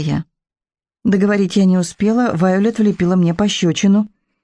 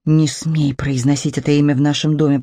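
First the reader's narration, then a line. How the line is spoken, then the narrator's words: Hiss. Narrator (Russian): прошипела Вайолет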